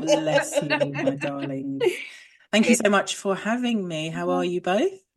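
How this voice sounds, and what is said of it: Polished radio presenter voice. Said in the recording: “We love that radio voice that you have.”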